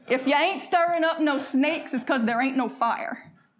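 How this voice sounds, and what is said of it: Folksy regional accent let show. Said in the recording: “I'm gonna talk sim sport to y'all ... when I let my accent show ... you talking sim sport”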